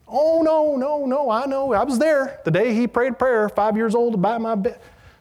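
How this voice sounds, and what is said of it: Put-on Southern accent. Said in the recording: “I heard a lot of this in the South. ... Any with Southern accents? ... I'm just goofing around.”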